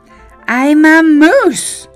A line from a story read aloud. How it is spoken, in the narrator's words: cried Morris